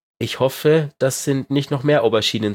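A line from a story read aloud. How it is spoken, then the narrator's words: Plain. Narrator (German): sagte er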